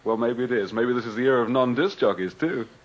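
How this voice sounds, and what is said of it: Speaker's own accent. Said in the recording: “I don't want to lose my accent completely.”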